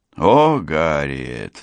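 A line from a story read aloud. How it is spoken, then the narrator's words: Sighed. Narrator (Russian): вздохнула Ангела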